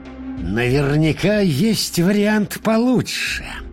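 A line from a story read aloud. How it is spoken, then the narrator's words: Hiss. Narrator (Russian): прошипел папа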